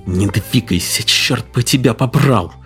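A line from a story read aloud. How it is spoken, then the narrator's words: Angry speech. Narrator (Russian): злобно проговорила Хетта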